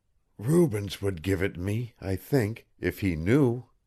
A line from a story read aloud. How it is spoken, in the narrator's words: to Patrasche he told all, and whispered